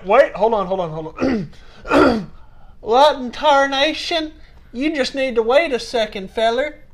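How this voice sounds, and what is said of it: Put-on country redneck accent. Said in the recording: “Was that your like country? ... That was my redneck idiot accent.”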